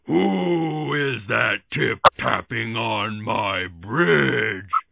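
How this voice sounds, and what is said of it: Loud troll voice. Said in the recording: “Called the troll in a loud voice.”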